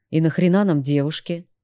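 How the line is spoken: Melancholy sigh. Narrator (Russian): вздохнул меланхоличный гитарист

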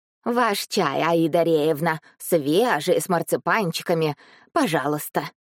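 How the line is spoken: Deep bass woman's voice. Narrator (Russian): пробасила тетка

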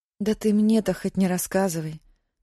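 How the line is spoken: Sad. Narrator (Russian): грустно сказала Мэри

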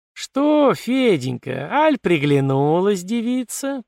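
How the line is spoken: Teasing sing-song drawl. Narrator (Russian): протянула певучим голосом вредная Фроська

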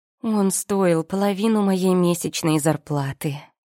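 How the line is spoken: Upset sigh, then telling. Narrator (Russian): расстроенно вздохнув, сообщила я

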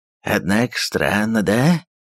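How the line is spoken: Grumbled, cossack. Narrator (Russian): пробурчал казак

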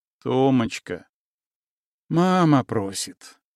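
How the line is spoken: Sighing. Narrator (Russian): вздохнул муж

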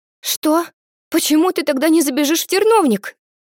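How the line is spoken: Frightened, worried exclamation. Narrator (Russian): Переживая за друга, испуганно воскликнула льдинка

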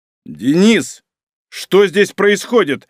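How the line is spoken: Barked shout. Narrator (Russian): рявкнул Малинин

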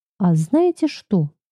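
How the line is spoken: Cheerful, smiling. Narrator (Russian): улыбнулся весело, словно нашел выход

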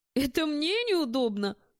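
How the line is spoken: Snort. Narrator (Russian): фыркнул я

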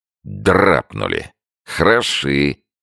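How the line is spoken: Mocking. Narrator (Russian): насмешливо сказал тот

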